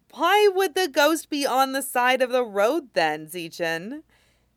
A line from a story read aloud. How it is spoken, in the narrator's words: Jingyi laughs